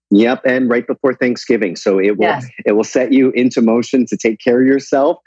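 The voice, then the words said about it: Canadian accent. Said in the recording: “The Canadian accent comes out.”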